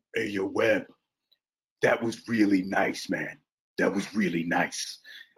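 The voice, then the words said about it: Imitates another person's voice. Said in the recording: “my Ving Rhames impersonation”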